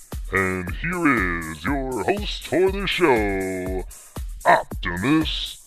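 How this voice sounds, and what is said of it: Very deep announcer voice. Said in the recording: “Guy with a really deep voice.”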